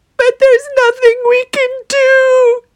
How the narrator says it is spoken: they screamed

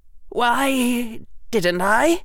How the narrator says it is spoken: Harry said, his voice caught

